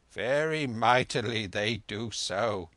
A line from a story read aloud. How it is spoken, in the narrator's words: sighed the old lady